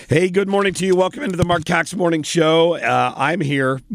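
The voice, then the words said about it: Strained, off-form voice. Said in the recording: “My voice is not what I would hope it should be.”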